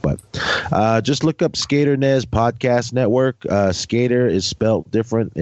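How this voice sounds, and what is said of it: Stuffy, slightly hoarse voice. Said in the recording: “Sorry I sound bad. ... I'm kind of stuffy and my throat's a little hoarse”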